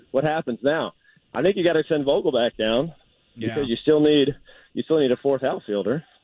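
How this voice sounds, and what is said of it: Out of breath, panting speech. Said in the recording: “Why are you so out of breath? ... I'm running uphill.”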